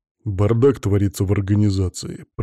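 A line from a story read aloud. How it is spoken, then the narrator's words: Grumbling. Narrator (Russian): проворчал Иван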